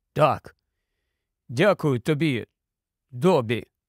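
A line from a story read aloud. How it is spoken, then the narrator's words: Suddenly hoarse voice. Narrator (Ukrainian): Той прокашлявся і сказав раптом охриплим голосом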